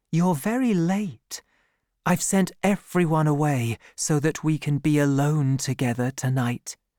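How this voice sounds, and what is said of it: Soft, loving tone. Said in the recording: “she said in a loving voice.”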